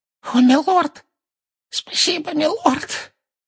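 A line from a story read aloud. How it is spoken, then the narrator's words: Hoarse with relief. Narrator (Russian): выдавил из себя Роквуд голосом хриплым от облегчения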